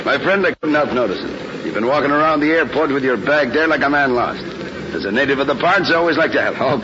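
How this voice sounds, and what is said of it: Irish accent. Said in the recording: “Okay, Irish. ... not with your accent”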